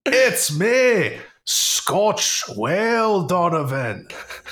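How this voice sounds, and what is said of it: Put-on Scottish accent, whale character. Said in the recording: “Scottish ... I'm trying to make like a whale noise in a Scottish accent.”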